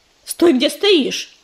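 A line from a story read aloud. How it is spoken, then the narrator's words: Barking. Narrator (Russian): рявкнул на него Белохвост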